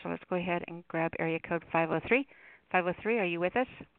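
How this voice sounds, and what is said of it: Talking very fast. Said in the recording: “You're talking so fast, ... You're talking fast.”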